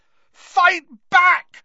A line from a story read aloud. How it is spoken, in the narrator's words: Harry screamed at him